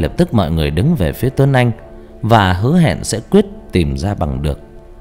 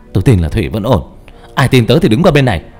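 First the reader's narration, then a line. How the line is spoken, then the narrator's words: Shouting after crying. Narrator (Vietnamese): Khóc xong, Tuấn Anh hét lên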